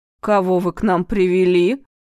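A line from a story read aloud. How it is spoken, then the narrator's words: Loud. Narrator (Russian): Громко произнесла Пронина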